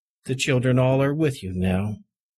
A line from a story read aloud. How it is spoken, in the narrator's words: the kindly doctor said